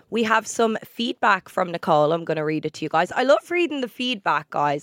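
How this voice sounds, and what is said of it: Sick, throaty voice. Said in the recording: “I'm a bit sick today. If you can hear it in my voice ... that like weird itch in your throat. I have that weird itch, so I'm constantly feeling like I need to cough. So if I sound weird”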